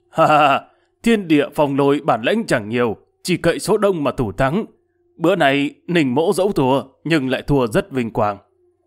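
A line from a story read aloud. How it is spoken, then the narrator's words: Loud laughing old man. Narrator (Vietnamese): Lão cất tiếng cười ầm lớn tiếng bảo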